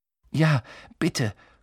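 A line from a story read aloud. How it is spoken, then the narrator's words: Gasped. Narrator (German): keuchte Harry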